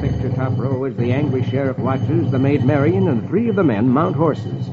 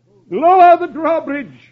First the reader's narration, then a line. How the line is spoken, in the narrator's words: the Sheriff cries